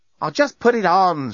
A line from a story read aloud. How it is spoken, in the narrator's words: shouted Lucy